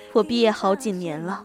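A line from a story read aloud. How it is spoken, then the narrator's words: Smiling. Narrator (Chinese): 我笑了笑说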